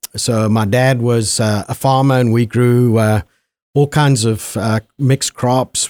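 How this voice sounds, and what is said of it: Zimbabwean accent. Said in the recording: “obviously the listeners can tell by your accent ... what was it like growing up in Zimbabwe?”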